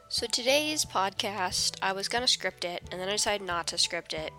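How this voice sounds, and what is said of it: Cracky, stuffy voice with a cold. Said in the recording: “apologize for my voice. It's going to be cracky and stuffy and weird sounding because I am just getting over slash getting into a cold”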